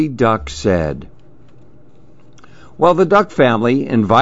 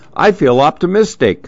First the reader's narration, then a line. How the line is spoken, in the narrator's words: Papa Duck laughed